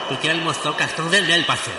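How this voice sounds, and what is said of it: Impression of Romário. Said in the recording (Portuguese): “imitando o Romário. Esse cara estava imitando o Romário ... O Romário que usava esse linguajar”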